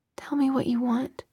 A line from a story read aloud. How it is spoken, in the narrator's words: he said in a whisper that couldn't quite disguise the hoarseness in his voice